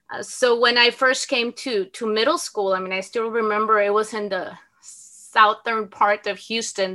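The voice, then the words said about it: Salma Hayek-like accented English. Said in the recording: “my accent was not even like Salma Hayek, but it was like really, really bad accent ... and I still have it ... my Salma Hayek accent's never gonna go away”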